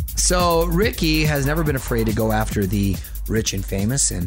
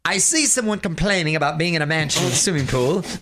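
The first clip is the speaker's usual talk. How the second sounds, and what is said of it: Shaky Ricky Gervais accent impression. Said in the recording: “My accents are not on point today, and I apologize... I got that better. That got better.”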